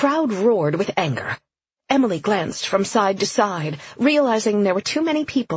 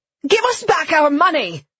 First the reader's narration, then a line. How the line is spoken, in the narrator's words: a voice shouted